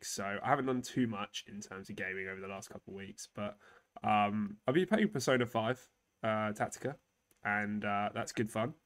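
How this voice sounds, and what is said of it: Sick-sounding voice. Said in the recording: “as you could probably tell in my voice, I've been sick as well the last week.”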